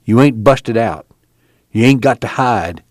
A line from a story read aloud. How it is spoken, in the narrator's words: he said softly